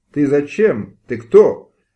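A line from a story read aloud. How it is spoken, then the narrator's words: Shouted in bewildered fury. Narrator (Russian): закричал князь в недоуменной ярости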